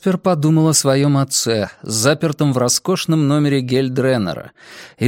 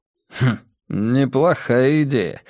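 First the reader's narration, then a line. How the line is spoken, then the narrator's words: Musing grunt. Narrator (Russian): хмыкнул Каз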